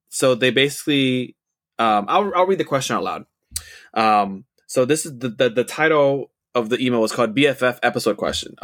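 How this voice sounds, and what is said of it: Dry, tired voice. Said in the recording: “we've been talking so much. I need to, my voice is kind of dry.”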